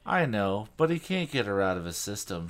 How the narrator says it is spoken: she sighed

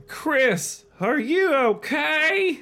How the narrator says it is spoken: Lindy cried

